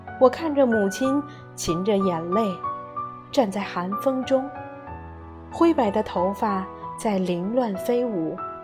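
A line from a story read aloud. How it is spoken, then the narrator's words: Timid, humble murmur. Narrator (Chinese): 母亲嗫嚅着，低声下气地说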